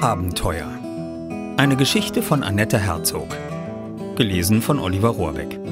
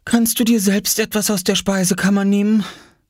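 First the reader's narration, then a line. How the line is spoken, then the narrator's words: Tired question. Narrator (German): fragte Mama müde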